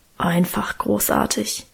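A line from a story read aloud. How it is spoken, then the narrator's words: Reverent mumble. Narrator (German): brummelte Guste andächtig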